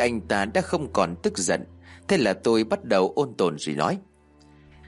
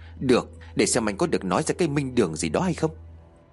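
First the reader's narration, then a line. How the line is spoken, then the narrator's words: Sulky, resentful. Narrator (Vietnamese): Vương Thành hậm hực rồi nói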